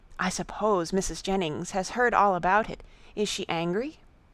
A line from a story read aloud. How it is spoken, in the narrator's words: lowering her voice